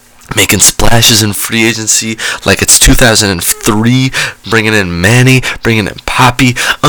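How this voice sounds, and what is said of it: Excited, hyped-up delivery. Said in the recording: “my tone of voice, but I'm hype ... I'm like, just so excited”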